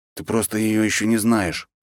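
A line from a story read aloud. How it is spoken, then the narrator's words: Grumbling. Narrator (Russian): буркнул Андросов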